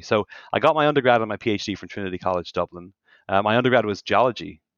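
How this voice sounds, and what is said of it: Irish accent. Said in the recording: “you can probably tell from my accent, I did not have a Midwestern accent. I'm from Ireland”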